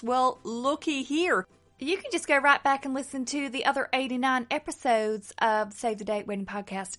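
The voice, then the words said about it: Put-on Southern US accent. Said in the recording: “that is my southern accent ... the southern ladies do that talk like this ... you really give those accents a crack”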